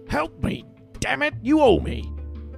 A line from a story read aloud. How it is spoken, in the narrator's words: he snapped like a child